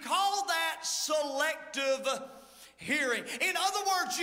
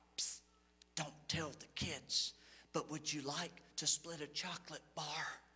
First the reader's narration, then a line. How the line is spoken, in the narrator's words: The father whispers